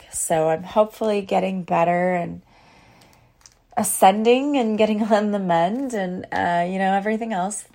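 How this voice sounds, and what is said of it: Weak, recovering voice. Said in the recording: “I had no voice. ... My voice is a little better, but as you can tell, it's still a little bit weak.”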